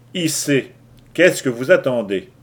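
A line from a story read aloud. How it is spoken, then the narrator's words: Sharper repeated command. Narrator (French): répéta Lou Larsen d'un ton plus tranchant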